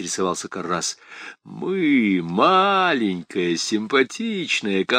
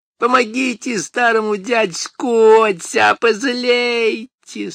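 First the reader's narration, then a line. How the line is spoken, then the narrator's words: Nasty creaky voice. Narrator (Russian): Существо вдруг перешло на гаденький скрипучий голос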